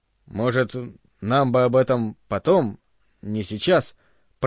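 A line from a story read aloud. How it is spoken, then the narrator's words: Embarrassed stammering mumble. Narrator (Russian): пробормотал, запинаясь от смущения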